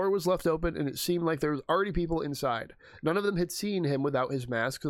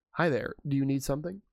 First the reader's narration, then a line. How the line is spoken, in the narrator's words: Peter said